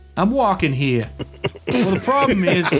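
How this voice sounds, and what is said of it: Put-on New York accent. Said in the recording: “his New York accent ... Sorry, I had to get in my New York accent.”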